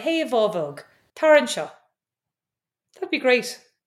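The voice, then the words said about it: Put-on Irish leprechaun accent. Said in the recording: “speak Irish ... You sound like the leprechaun on The Simpsons.”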